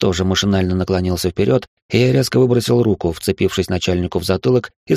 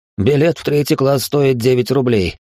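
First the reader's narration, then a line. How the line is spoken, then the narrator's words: Wry snort. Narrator (Russian): хмыкнул я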